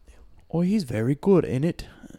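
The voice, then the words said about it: Put-on British accent, pretty good. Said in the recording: “that was a pretty good British accent.”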